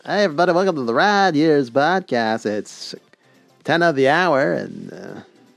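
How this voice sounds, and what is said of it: Radio DJ voice. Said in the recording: “And then came out with my DJ voice.”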